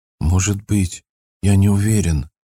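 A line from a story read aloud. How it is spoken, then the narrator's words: Timid answer. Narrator (Russian): робко ответил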